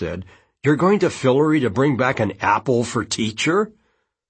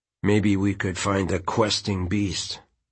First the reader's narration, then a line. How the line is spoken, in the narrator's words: Quentin said quietly